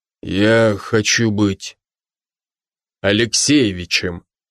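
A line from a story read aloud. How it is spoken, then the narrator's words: Sudden solemn declaration. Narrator (Russian): вдруг торжественно выдал Брок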